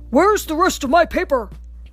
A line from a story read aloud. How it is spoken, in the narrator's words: thundered an angry Papa Bear